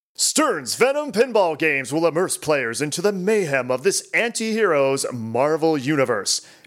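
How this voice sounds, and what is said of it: Dramatic announcer voice. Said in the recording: “I'll put my announcer voice on here.”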